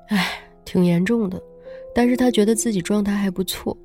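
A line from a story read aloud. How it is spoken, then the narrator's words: Worried sigh. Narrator (Chinese): 苏纯担心的，叹了口气，说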